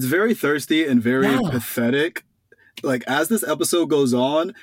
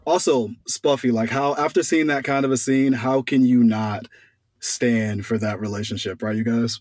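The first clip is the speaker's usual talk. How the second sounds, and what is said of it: Sarcastic tone. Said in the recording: “Are you being sarcastic? ... I totally am.”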